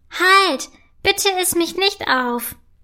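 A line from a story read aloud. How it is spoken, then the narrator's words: Cheeky voice calling out. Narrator (German): ruft eine freche Stimme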